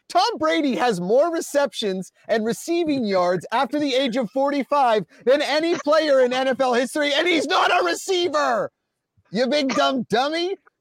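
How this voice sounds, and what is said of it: Yelling loudly. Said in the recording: “Now I'm yelling.”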